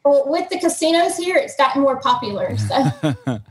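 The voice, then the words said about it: Mississippi Southern American accent. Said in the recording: “From the accent, you can tell it's in Mississippi.”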